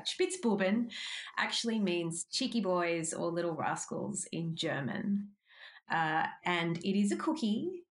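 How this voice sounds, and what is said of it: Australian accent. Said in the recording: “a gorgeous Australian accent”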